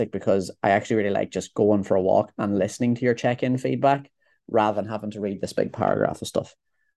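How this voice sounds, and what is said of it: Irish Monaghan accent. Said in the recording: “a boy from Monaghan ... I can't fucking stand this boy's accent ... slack jawed yokel ... He can't say these words correctly”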